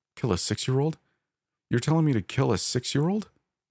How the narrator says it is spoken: I cried

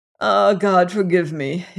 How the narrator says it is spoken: he groaned again

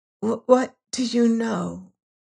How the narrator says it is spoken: She whispered at last

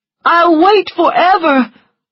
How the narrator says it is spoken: cried Charles

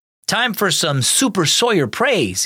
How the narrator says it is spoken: exclaimed

